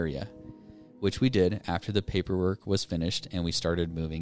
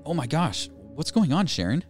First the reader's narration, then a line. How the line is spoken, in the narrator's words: exclaimed